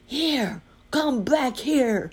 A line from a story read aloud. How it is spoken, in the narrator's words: cried the bear